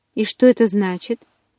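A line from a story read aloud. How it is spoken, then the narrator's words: Grim smirk. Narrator (Russian): Сестра Эдварда мрачно усмехнулась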